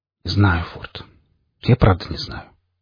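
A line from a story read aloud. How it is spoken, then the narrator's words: Almost whispering. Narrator (Russian): почти шепотом ответил я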